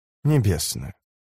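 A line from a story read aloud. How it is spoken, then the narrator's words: Sudden tender smirk. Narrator (Russian): усмехнулась она внезапно ласково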